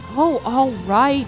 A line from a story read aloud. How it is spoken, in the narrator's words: she said, sighing